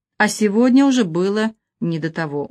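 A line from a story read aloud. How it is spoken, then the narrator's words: Tired explanation. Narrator (Russian): устало объяснила она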